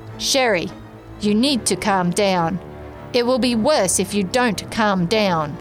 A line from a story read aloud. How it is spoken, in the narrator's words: Adrian sternly and matter-of-factly said to me